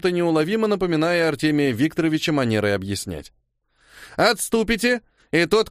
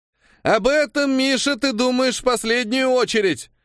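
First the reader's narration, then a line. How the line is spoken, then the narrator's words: Shouted reply. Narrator (Russian): прокричал мне в ответ Костик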